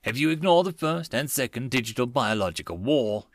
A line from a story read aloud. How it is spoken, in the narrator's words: snorted to herself